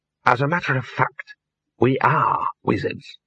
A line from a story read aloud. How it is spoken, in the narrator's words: he hissed